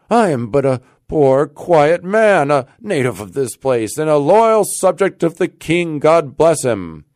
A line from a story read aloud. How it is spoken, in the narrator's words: cried Rip, somewhat dismayed